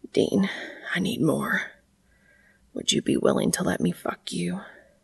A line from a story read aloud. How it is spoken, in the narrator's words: whispered, panting hard